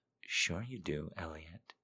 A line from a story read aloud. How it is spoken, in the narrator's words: she whispered back